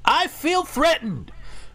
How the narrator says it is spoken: he puffs up his chest, balls his fists, and yells

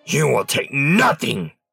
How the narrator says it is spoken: It snarled

